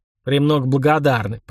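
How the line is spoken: Grumbling mutter. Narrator (Russian): пробурчал Бунша

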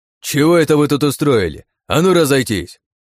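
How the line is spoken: Barked command. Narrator (Russian): Гаркнул он на нас

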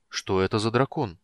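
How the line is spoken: Confused question. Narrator (Russian): растерянно спросил Карамон у брата

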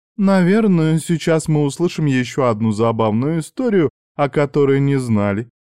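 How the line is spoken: Giggling. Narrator (Russian): хихикнула Кори

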